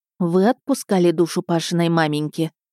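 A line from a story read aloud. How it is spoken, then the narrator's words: Stern. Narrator (Russian): строго сказала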